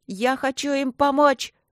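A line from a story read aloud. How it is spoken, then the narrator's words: Near shriek. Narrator (Russian): почти завизжала я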